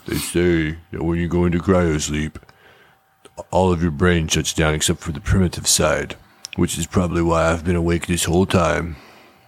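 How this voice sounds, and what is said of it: Imitates a gravelly movie character voiceover. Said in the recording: “that was a perfect impression.”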